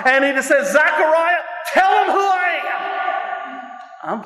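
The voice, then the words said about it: Screaming preacher delivery. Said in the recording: “I'm screaming.”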